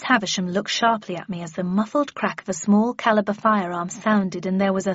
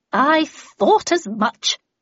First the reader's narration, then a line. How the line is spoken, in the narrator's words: she sneered